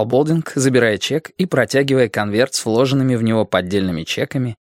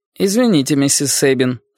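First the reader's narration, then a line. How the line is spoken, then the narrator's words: Calm. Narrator (Russian): спокойно сказал Болдинг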